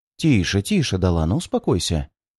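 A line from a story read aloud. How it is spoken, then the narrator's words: Gentle soothing plea. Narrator (Russian): Ласково попросил я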